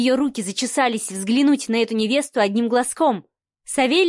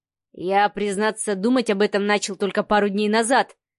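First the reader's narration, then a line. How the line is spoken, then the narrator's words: Snorting. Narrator (Russian): хмыкнул Савелий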